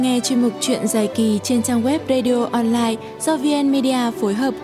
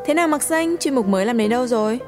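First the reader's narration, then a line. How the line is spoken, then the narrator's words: Openly mocking, smiling. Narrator (Vietnamese): Chị Mai mỉm cười vẻ châm biếm không giấu giếm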